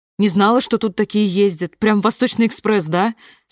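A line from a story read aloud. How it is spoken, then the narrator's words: Plain. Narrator (Russian): спросила Аня Сурова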